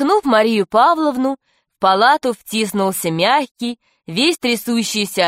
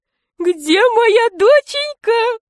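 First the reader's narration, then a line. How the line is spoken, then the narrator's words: Fat man's thin voice. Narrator (Russian): сказал толстяк тонким голосом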